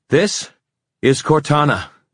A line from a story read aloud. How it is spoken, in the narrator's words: she gasped, her chest heaving